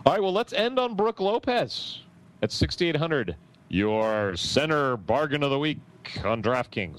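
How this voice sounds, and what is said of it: Mock sports announcer voice. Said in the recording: “I'm just making up categories to use the announcer voice.”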